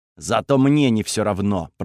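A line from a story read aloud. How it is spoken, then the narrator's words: Through gritted teeth. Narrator (Russian): процедил Таурон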